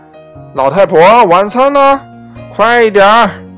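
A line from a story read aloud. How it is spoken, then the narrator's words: Loud shout. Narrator (Chinese): 朱先生 总是大喊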